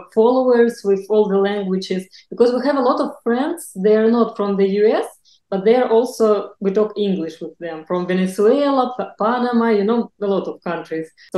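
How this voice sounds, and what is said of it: Non-native accented English. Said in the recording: “I know that my English is not good. I know about my accent”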